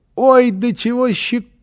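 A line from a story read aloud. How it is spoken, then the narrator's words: Child squealing. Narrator (Russian): визжал малыш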